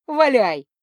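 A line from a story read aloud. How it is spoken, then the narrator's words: Joyful agreement, mule. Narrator (Russian): радостно согласился мул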